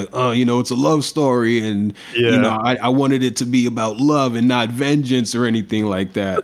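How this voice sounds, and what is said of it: Imitates another person's voice. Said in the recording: “That was a great impression, by the way. That was spot on, bro. That was spot on.”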